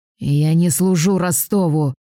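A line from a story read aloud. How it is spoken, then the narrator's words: Hoarse werewolf rasp. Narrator (Russian): хрипит оборотень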